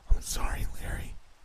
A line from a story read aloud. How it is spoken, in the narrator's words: Jesse whispered